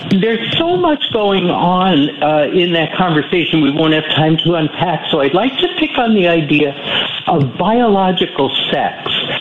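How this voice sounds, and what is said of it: Nervous, slightly shaky voice. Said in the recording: “I'm a little nervous, so my voice sounds a little shaky.”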